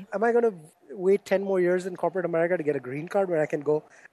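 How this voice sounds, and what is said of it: Indian-accented English. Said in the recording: “I hear an Indian accent.”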